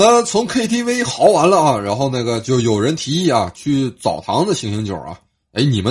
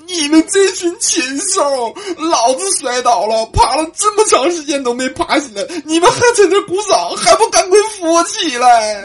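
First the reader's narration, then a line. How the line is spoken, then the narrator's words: Crying while shouting. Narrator (Chinese): 双子 边哭边喊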